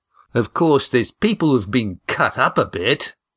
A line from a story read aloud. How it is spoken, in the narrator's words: said Sandy cheerfully